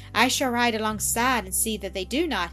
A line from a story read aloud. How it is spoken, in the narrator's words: he said